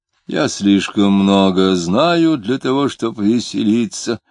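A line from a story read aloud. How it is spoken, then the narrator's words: Disguised gloomy voice. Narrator (Russian): ответил Клим, изменив голос и мрачно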